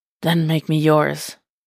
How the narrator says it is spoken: he breathed, face flushing at how breathy and needy the words came out

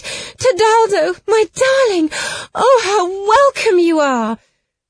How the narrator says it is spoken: she burst into tears, threw her arms round his neck, kissed him, and cried

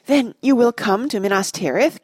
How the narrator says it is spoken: cried Boromir

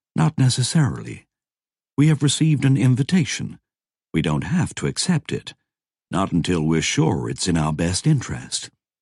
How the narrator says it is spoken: Roberta said calmly

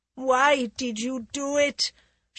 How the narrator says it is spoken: she asked in a sickened voice

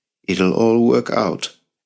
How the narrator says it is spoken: added calmly

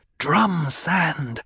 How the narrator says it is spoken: Jessica hissed

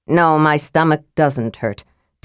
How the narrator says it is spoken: Tanis said irritably

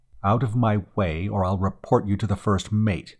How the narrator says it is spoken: he said firmly

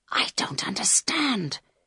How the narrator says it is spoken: whispered Carl

